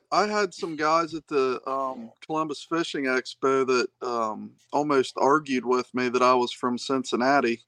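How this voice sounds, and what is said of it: Hillbilly twang. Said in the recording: “my hillbilly twang”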